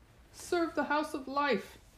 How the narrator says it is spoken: the magician called out

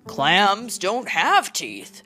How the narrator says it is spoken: grunted her father

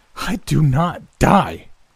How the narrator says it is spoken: spat

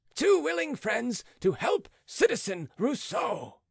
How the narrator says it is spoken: shouted Marat

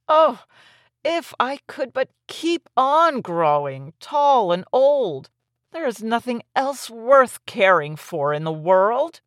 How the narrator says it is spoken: it remained unsatisfied and would exclaim

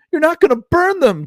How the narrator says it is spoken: Tina shrieked

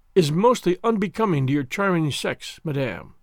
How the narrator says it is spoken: sighed the prince

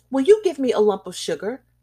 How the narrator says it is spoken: he asked in a sharp, hard little voice, a voice immature and yet somehow not young

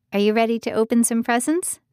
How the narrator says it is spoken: asked

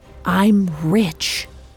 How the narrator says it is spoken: lowering his voice to a whisper

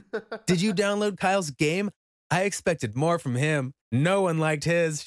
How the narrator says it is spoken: she said

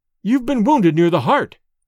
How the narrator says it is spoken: cried Dorda

